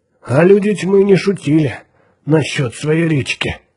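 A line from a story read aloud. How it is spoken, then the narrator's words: Gloomy under-breath grumble. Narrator (Russian): мрачно проворчал он себе под нос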